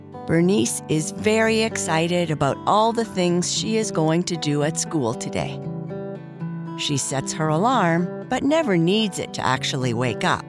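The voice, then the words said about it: Hoarse, fading voice. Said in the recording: “As you can hear, I am losing my voice a bit”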